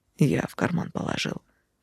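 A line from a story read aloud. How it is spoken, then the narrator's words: Whispered in ear. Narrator (Russian): шепнул мне на ушко Конрад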